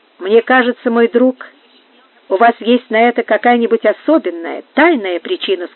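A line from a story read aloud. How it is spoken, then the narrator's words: Plain. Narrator (Russian): сказал Жиль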